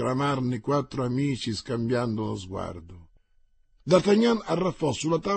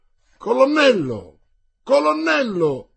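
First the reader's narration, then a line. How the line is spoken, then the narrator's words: Shouted. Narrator (Italian): gridò Mordaunt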